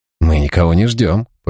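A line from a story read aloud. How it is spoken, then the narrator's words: Grumbling. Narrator (Russian): пробурчал он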